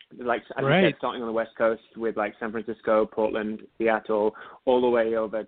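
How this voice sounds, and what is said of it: British accent. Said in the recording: “oh, you're British. I'm like, yes ... they hear my accent.”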